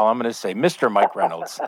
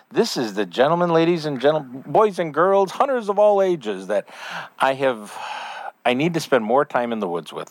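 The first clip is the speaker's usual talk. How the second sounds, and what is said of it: Ringmaster-like showman announcer delivery. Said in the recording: “you sounded like a ringmaster”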